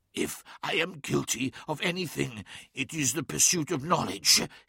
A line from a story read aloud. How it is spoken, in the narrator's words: hissed Magnus through clenched teeth